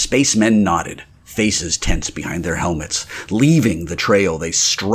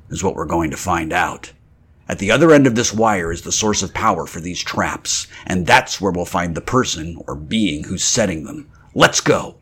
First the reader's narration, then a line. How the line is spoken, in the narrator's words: he said grimly